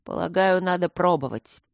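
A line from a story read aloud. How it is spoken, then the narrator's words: Sullen grumble. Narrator (Russian): хмуро проворчал Трот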